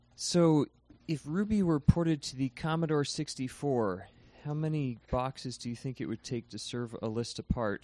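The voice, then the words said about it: Polished radio-announcer voice. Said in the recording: “I think you've got uh, quite the radio voice”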